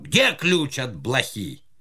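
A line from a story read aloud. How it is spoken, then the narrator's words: Shouting. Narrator (Russian): Платов закричал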